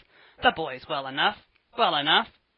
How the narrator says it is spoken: sharply

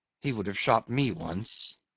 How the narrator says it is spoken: murmured

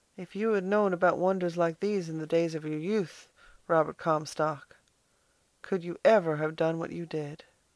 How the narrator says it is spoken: she said softly

